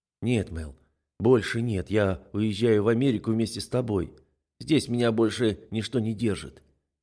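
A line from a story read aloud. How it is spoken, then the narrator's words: Soft, gentle. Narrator (Russian): говорю я мягко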